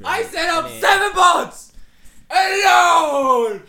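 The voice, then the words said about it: Screaming. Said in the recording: “stop screaming”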